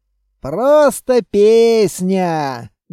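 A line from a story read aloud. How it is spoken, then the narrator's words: Contented grumble. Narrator (Russian): довольно проворчал Кузьма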